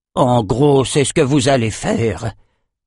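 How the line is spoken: Growled. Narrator (French): grogna Emmett

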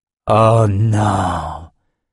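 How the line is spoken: Weary old man's sigh. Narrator (French): soupira le vieil homme accablé

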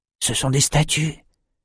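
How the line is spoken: Breathless trembling voice. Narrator (French): souffla Bannon, la voix tremblante

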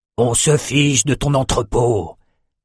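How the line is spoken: Growling. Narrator (French): grogna Rendel

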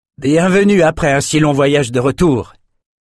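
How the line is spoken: Exclaiming. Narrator (French): s'exclama

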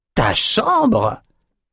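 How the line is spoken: Hissed. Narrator (French): siffla Amos

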